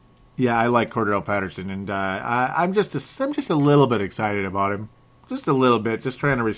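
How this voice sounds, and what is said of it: Usual voice. Nothing is said of it.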